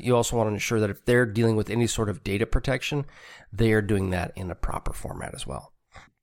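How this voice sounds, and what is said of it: Congested, stuffy voice. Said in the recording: “I sound a little congested. ... I am fighting a cold”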